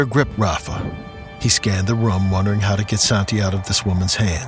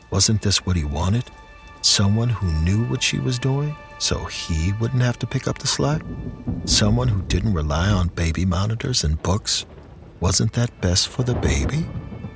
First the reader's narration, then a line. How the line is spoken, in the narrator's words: In a quiet, mocking tone, she asked